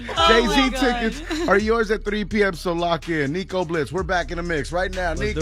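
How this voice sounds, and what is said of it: Usual voice. Nothing is said of it.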